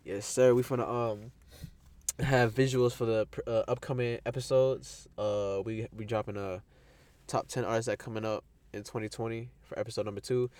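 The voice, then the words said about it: Sick, congested voice from allergies. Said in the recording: “I sound sick. ... pollen.”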